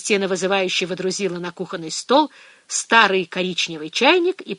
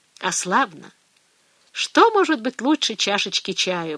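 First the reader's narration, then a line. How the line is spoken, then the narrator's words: Blissful sigh. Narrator (Russian): блаженно вздохнула Фия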